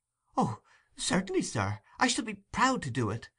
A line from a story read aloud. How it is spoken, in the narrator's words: exclaimed Oliver, greatly delighted with the commission